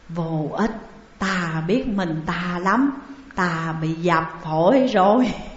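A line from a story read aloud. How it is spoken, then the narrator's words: Weak whisper. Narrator (Vietnamese): Hóa Giao thều thào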